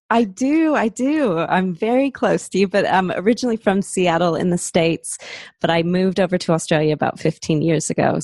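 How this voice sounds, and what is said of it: American accent, slightly Australian-tinged. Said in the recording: “you sound like you're not from here ... you sound American ... I must sound really American ... some sort of hybrid”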